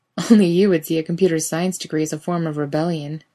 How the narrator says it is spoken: Dean laughs

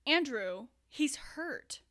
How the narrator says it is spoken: she choked out, while still attempting to make that talking to a scared animal voice

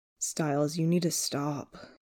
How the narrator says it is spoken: Chris groans lowly

